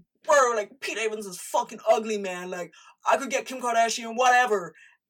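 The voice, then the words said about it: Put-on dude-bro accent. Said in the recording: “I don't even know where that accent went. Oh my God, I'm so sorry you had to hear that.”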